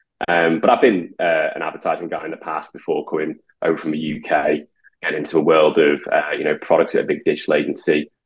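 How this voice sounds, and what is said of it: Liverpool accent with Birmingham mix. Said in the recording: “Liverpool. I grew up in Liverpool. I did live in Birmingham for a while. So my accent's a bit slightly bastardized”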